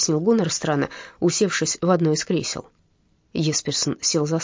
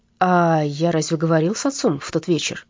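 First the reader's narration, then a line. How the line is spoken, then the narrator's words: Uncertain question. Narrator (Russian): неуверенно спросил он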